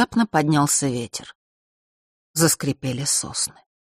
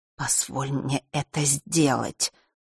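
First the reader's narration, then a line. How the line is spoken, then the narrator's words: Whispered again. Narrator (Russian): вновь прошептала Елена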